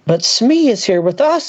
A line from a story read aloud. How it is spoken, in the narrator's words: I cried